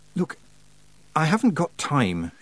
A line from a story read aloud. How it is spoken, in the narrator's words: she said weakly